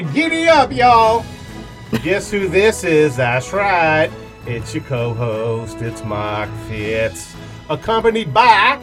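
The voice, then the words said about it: Put-on Southern drawl. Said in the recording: “You might be wondering why I had a Southern drawl”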